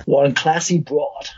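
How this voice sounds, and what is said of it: Terrible put-on American accent. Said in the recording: “a terrible American accent”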